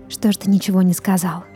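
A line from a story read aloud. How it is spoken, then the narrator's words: Quiet whisper. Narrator (Russian): Тихо шептала Анна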